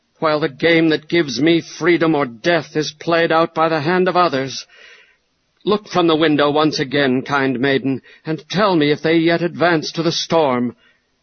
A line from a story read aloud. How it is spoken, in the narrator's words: exclaimed Ivanhoe